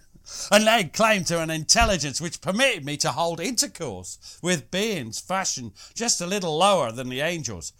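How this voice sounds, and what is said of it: Australian accent. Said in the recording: “that's Australian”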